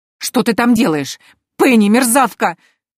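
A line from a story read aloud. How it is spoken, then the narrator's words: Muffled shrieking. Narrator (Russian): визжала Антария из импровизированного мешка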